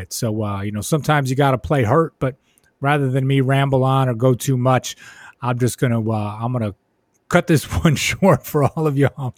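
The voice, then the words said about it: Hoarse, fading voice. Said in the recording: “losing my voice just a little bit”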